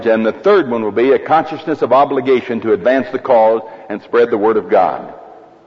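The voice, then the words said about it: Speaks with a noticeable accent. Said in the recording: “Is my accent bothering you?”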